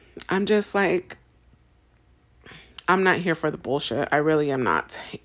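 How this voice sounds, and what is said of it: Upset, changed tone of voice. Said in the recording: “tell by my tone and my change in tone that it's still very upset”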